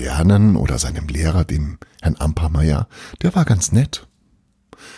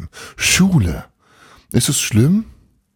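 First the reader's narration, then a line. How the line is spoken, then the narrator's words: Called out. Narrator (German): rief Frau Wilhelm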